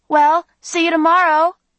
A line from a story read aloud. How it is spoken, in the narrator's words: I called out